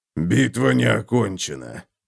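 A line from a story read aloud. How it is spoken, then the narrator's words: Hoarse rasp. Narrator (Russian): прохрипел Готрик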